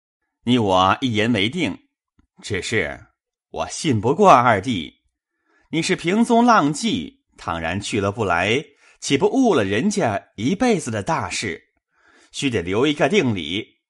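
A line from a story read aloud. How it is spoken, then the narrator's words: Laughing. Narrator (Chinese): 贾琏笑道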